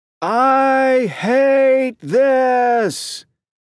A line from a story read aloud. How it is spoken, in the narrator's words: Oren yells out